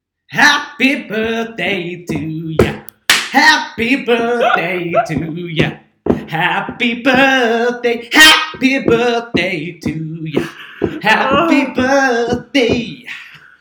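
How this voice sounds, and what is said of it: Very loud singing, imitates another person's voice. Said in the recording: “very, very loud ... got slightly carried away with his Stevie Wonder impression ... he went full Stevie”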